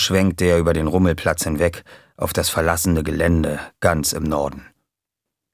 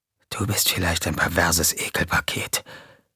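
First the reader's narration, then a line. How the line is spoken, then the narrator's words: Whispered. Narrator (German): wisperte JJ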